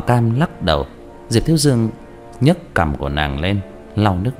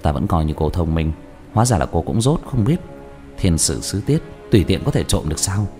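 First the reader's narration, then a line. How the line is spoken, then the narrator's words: Sly, low, laughing voice. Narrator (Vietnamese): giảo hoạt cười hạ giọng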